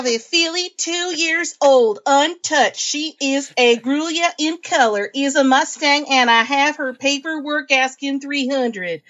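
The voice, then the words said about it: Put-on Southern US accent. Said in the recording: “I'm going to throw in a southern accent because I can.”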